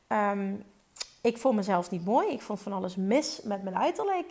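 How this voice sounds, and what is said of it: Speaks with an accent. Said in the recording (Dutch): “Ik had, heb een accent.”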